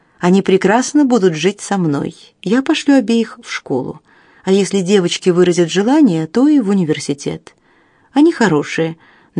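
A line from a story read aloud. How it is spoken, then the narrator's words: Calm. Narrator (Russian): добавила она спокойно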